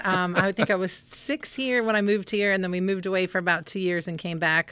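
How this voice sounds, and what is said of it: Slight Southern twang mixed with Northern. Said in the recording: “You've adopted the Southern accent a little bit ... a little mix of that Northern and Southern ... Twang.”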